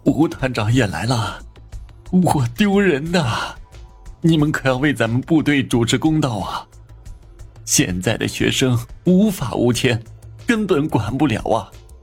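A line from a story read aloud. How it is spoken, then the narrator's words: Man near tears, pitiful. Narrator (Chinese): 马立山一个大男人就差哭诉了，看起来十分可怜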